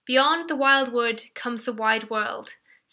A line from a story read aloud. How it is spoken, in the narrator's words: said the rat